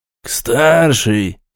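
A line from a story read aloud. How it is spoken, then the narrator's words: Gloomy reply. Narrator (Russian): мрачно ответил Панкратов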